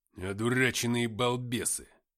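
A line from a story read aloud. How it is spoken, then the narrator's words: Displeased growl. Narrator (Russian): недовольно прорычал Артем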